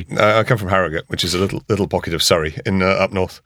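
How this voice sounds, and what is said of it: Posh English accent. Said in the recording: “You sound quite clear and lucid. You can't be Scottish ... you do sound very posh.”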